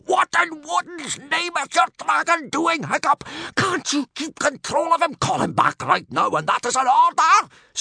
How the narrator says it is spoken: screeched Gobber in a furious, strangled whisper

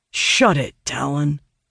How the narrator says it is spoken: Owen growls

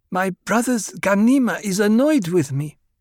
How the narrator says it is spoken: Aaliyah said in her half-lisp

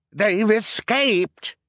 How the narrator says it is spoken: cried

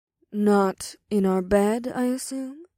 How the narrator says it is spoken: Ada said with a purr

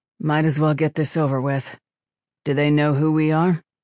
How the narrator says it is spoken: The ship mind chuckled without much humor

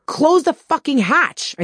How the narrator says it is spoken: I screamed over the wind

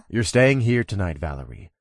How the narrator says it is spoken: I said in a firm tone

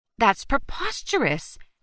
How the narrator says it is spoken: Alvy shouted across the desk

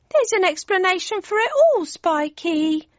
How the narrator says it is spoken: whined Cindy

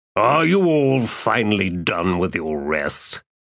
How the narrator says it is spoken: Kalar asked, with a faint sneer

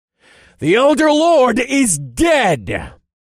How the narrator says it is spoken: I shouted

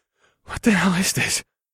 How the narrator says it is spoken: I gasped

